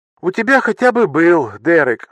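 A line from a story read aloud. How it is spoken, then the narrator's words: Sighing. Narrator (Russian): вздохнула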